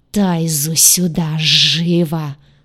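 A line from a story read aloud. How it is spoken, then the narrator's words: Menacing hiss, ruler. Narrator (Russian): угрожающе прошипел повелитель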